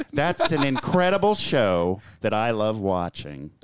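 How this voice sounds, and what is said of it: Imitates another person's voice. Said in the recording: “That's a pretty good impression, honestly. ... just if we can age your voice a little bit, that's Tim Cook right there.”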